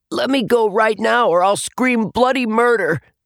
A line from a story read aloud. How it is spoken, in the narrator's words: Atticus shouted